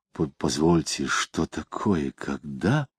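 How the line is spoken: Muttered. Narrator (Russian): Самгин пробормотал

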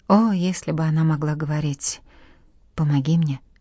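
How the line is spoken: Whisper. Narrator (Russian): прошептал

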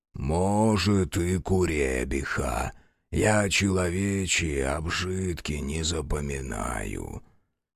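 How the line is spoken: Booming forest spirit. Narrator (Russian): прогудел леший

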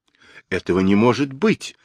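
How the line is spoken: Exclaiming. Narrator (Russian): воскликнул Джулиан

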